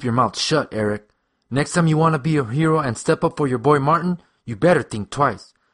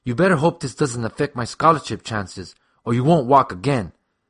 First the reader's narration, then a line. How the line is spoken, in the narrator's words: Steve hissed